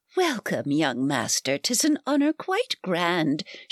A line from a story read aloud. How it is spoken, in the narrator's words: she cooed